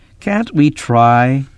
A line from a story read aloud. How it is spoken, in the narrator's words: Kip pleaded